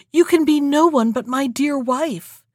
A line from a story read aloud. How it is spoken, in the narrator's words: the king could not restrain himself, cried